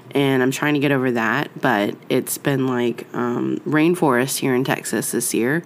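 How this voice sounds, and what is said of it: Raspy, nasal voice. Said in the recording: “It's all kind of raspy and nasally today because, well, I got the bronchitis”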